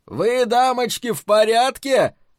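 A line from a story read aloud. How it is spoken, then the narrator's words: Yelled. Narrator (Russian): заорал Дик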